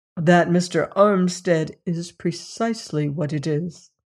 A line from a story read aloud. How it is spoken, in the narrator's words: I answered